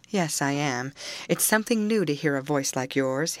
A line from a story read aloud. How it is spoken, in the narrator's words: he replied